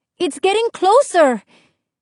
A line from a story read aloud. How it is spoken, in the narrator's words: Isabel cried